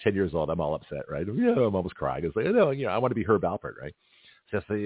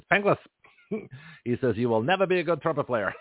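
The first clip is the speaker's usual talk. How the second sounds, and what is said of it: Strong Dutch accent. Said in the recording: “he's a Dutch guy... he spoke with a very strong accent”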